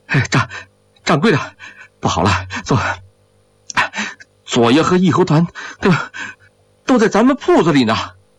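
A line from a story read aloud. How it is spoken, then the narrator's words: Breathless panting speech. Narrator (Chinese): 张喜儿喘着粗气说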